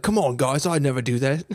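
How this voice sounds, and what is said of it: Put-on Australian accent. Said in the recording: “I don't know why I made him Australian. Australian and British basically the same accent, right?”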